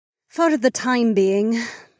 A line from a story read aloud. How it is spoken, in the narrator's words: Amarla sighed